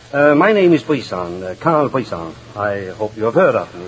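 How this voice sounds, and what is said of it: Scandinavian accent. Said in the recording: “I placed you by your accent immediately. You're that new long-distance runner from Sweden ... I'm a long-distance singer from Denmark”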